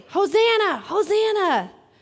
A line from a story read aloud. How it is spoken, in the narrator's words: as the people were shouting